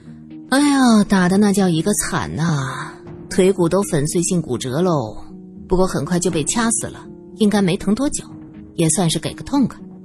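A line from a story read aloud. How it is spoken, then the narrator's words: Mumbling. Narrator (Chinese): 萧琴嘴里嘟囔着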